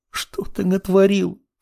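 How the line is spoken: Sobbing. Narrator (Russian): всхлипнув, произнесла Левитания

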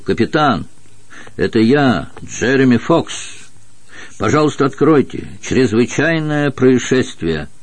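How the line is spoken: Shouting. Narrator (Russian): Штурман крикнул

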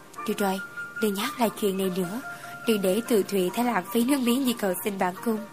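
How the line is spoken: Soft laugh. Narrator (Vietnamese): Ta khẽ cười, nói

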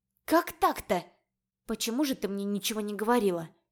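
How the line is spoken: Confused mutter. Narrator (Russian): Пробормотала сбитая с толку я

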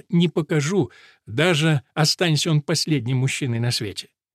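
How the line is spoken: Laughing. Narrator (Russian): Керис засмеялась и сказала

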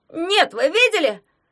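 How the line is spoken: Disappointed, bewildered yell. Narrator (Russian): разочарованно завопил ничего не понимающий Ягун

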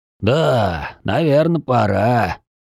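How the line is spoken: Agreeing. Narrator (Russian): согласился его собеседник

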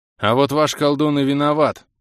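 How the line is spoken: Harsh scoff. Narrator (Russian): жестко хмыкнул Бенг

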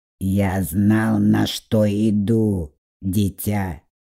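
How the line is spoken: Quiet grumble. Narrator (Russian): проворчал тихо

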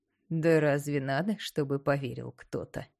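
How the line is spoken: Short laugh. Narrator (Russian): коротко хохотнул Горын

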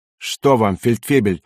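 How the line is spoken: Irritated questioning. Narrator (Russian): раздраженно спрашивает он

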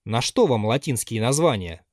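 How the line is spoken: Plain question. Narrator (Russian): спросил Базаров

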